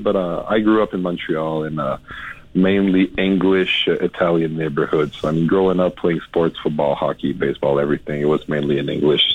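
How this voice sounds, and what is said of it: Slight French accent. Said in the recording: “I have a little bit of a French accent”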